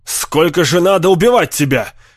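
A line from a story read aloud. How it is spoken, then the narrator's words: Shout. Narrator (Russian): крикнул Дэви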